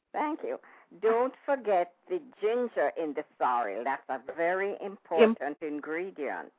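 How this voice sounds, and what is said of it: Jamaican accent. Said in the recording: “I hear an accent, so I assume that you are Jamaican?”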